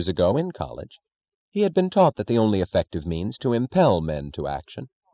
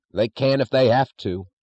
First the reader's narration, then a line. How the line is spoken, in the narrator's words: snapped Chalmers